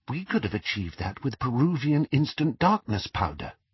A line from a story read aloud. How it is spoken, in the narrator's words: whispered Hermione through the dark